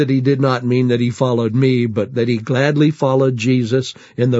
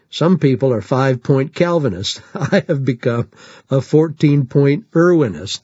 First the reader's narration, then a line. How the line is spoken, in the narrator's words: With some laughter, a pastor saying